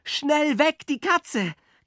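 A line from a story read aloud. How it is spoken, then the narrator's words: Shrieking. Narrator (German): kreischte ich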